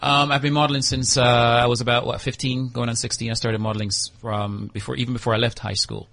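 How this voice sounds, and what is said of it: Mixed Jamaican, American and British accent. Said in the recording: “I was born in Jamaica, firstly, and then moved over to the United States as well as the United Kingdom. And that's why I have this weird accent that no one ever figures out.”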